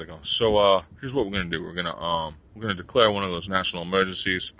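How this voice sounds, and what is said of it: Imitates another person's voice, unenthusiastic. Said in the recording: “That's not his accent, but close enough ... obviously he's not really feeling like there's an emergency in his voice”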